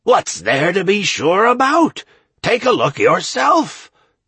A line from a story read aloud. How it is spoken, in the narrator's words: said Draco in a satisfied voice